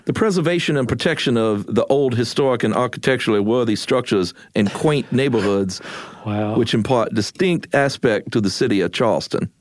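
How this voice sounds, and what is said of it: Old-timey put-on American accent. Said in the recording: “Can you please read it in a mid-Atlantic accent? ... the old timey one ... I was going to do an old Southern thing.”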